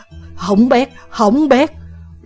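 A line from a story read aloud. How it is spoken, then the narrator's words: Loud alarmed cry. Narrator (Vietnamese): liền lớn tiếng là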